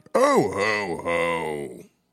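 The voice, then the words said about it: Weak Santa Claus laugh impression. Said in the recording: “that was a terrible Santa. I feel like that was my weakest. That was my weakest impression”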